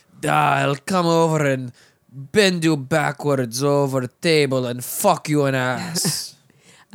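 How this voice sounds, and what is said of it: Exaggerated Russian accent, rolled R's. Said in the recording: “in a Russian accent ... I can't do a good Russian accent ... it's going to sound terrible ... I like the R's. ... The sticky R to D.”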